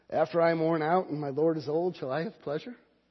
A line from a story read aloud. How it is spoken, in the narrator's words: Sarah laughed to herself, saying